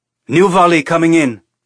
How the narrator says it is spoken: Casper shouted

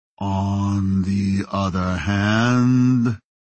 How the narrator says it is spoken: Ito said in a slow drawl

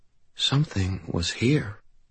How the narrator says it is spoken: whispered

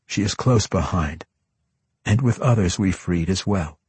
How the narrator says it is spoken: he answered

